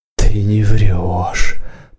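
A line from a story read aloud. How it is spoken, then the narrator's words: Awed mutter. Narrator (Russian): пробормотала, и в голосе ее Варану почудилось благоговение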